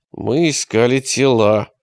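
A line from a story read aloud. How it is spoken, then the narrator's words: Through gritted teeth. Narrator (Russian): ответил он сквозь зубы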